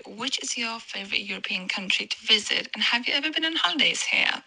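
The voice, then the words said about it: Noticeable non-native accent. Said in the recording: “Obsessed with her accent.”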